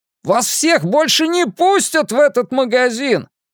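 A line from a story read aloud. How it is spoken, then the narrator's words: Shouting after someone. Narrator (Russian): прокричал ему вслед продавец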